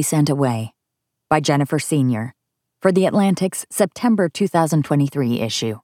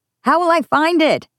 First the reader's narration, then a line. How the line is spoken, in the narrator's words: shout